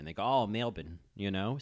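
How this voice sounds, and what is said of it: Bad put-on Australian accent. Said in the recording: “that's how an Australian would say Melbourne ... the first bad Australian accent you've gotten this season”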